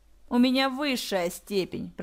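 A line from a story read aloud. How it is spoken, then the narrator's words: Said through gritted teeth. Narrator (Russian): процедил Марк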